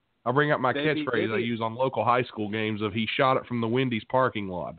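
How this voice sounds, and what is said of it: West Virginia rural Southern accent. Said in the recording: “a hick accent ... This West Virginia accent”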